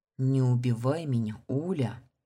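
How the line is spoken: Breathless plea. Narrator (Russian): выдохнул красавчик

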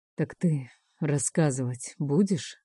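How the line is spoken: Hoarse question. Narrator (Russian): хрипло спрашивает Бер

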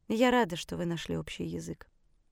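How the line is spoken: Quiet, after hesitation. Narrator (Russian): наконец тихо сказала она

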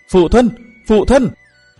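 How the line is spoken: Loud calling. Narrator (Vietnamese): Thế là chàng đã lớn tiếng gọi

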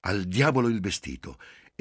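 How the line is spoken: Impatient exclamation. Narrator (Italian): Giulia esclamò con impazienza

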